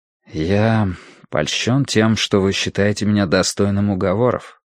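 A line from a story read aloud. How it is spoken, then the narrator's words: Quiet reply. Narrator (Russian): тихо ответил Тай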